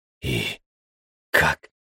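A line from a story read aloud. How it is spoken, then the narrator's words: Questioning rasp. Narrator (Russian): вопросительно прохрипел Костя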